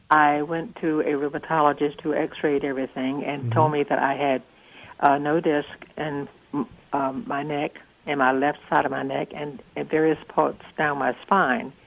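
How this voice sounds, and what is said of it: Southern drawl accent. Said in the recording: “southern drawl”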